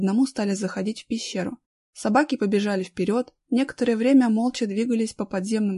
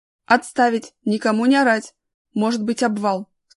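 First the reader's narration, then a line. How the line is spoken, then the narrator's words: Stern interruption. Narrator (Russian): строго оборвал его Колян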